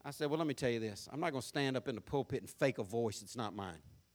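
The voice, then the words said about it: American country accent. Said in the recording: “if you don't lose that country accent ... You sound like Gomer Pyle ... this country accent”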